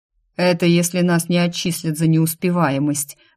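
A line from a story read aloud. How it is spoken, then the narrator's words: Muffled, hollow. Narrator (Russian): глухо проговорил Зумий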